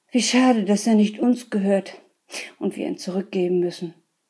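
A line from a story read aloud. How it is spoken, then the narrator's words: Man's sigh. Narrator (German): seufzte der Mann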